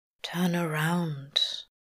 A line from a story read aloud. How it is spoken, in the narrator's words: Crowley murmurs, mouth right against his ear